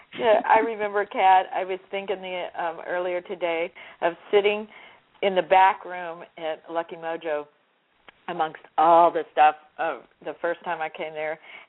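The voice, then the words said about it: Worn, deep, slightly strained voice. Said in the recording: “my voice is a little off. I've just talked it to pieces ... it's like this deep bedroom voice”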